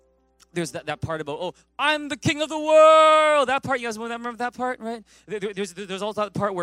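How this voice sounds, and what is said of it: Usual voice. Nothing is said of it.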